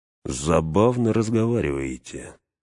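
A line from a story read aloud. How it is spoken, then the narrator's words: Soft eerie voice. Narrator (Russian): мягко сказал жуткий голос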